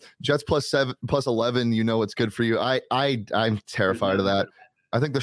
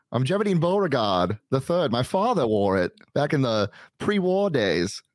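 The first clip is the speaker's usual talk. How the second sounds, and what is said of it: Put-on character accent. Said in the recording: “This is a costume show. It's not an accent show.”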